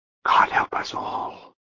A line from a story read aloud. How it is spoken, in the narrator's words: Dietrich whispered